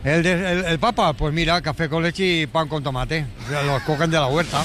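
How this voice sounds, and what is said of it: The Pope with Catalan accent. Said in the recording (Spanish): “Y tiene acento catalán ... Me encanta que tenga el Papa acento catalán.”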